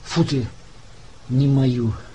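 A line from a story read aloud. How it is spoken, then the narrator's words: Relieved sigh. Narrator (Russian): сразу облегченно вздохнул Соловьев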